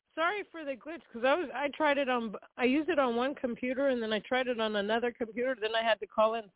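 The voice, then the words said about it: Sick-sounding voice. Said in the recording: “excuse my voice, because I'm sick”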